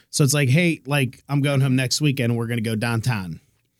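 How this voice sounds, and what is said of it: Accent dropping final syllables. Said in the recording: “my accent gets really bad... they don't pronounce their last syllables”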